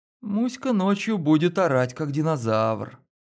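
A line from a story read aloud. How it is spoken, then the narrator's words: Sleepy mutter. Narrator (Russian): сонно пробормотала Лена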